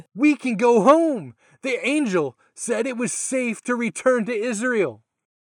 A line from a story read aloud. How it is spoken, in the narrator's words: Joseph excitedly said